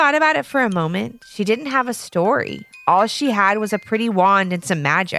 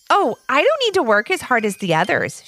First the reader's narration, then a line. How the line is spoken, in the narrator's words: answered